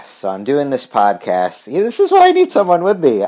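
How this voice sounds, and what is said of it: Slightly congested, weird-sounding voice. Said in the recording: “my voice is a little weird. I have a sinus infection. I'm coming off a little sinus infection.”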